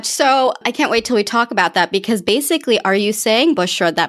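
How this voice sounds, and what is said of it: American accent. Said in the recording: “you have a decidedly better and less offensive accent ... my American accent”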